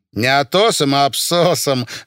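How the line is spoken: Laughing. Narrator (Russian): рассмеялась Рая Абаульна

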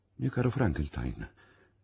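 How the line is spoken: Exclamation. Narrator (Italian): esclamò Harry, vedendomi piangere amaramente

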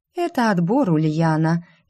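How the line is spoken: Lazy reply. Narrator (Russian): лениво отозвалась Кизония

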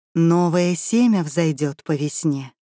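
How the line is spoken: Young woman, insinuating voice. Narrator (Russian): заговорила молодица вкрадчивым голосом

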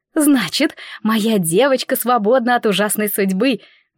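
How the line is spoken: Exclaimed. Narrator (Russian): воскликнула Анелла

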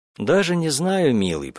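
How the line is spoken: Cooing. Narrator (Russian): проворковала я

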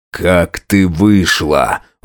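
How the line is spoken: Through gritted teeth. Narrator (Russian): Вопрос вырвался сквозь зубы

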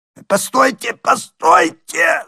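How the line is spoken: Frightened hoarse wheeze. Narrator (Russian): захрипел побледневший еврей

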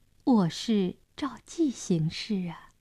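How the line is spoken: Soft reply. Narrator (Chinese): 亚克林轻声回答

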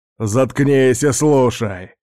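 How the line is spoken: Barked. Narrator (Russian): рявкнул Льюис

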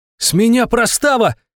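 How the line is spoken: Squeaky delighted shout over phone. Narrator (Russian): чуть ли не попискивая от восторга, прокричал в трубку Гринёв

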